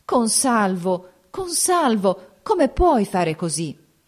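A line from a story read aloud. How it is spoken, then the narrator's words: Anguished reproach. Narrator (Italian): Teresa esclamò con voce d'angosciosa rampogna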